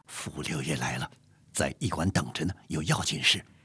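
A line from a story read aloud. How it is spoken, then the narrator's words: Whispering in ear. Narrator (Chinese): 阿贵小声的在纪云耳旁说道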